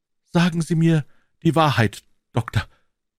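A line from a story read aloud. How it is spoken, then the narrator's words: Stammering. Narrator (German): stammelte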